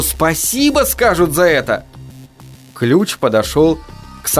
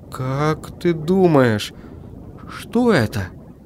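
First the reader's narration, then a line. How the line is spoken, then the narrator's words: Trembling question. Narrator (Russian): спросил я дрожащим голосом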